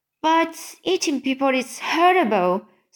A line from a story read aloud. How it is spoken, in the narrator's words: Sophie cried